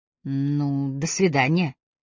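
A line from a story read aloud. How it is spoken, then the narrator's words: Uncertain. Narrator (Russian): неуверенно произнесла Агата Трой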